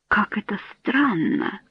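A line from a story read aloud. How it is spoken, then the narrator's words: Whispered. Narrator (Russian): прошептала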